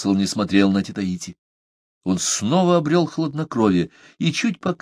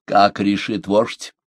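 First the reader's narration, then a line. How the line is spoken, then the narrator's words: Dry, almost commanding question. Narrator (Russian): спросил его сухим, почти повелительным голосом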